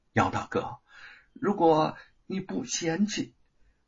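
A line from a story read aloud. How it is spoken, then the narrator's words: Gentle. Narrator (Chinese): 黄素娥温柔的说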